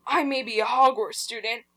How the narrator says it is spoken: Hagrid paused angrily

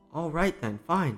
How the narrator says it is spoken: said the princess

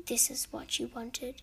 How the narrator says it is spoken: Ariana whisper under her breath

